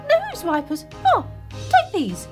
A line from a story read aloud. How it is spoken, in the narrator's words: he cried